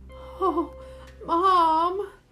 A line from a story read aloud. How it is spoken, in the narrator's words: I cried